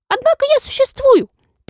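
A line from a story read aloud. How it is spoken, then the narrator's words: Squeak. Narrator (Russian): пискнула Моль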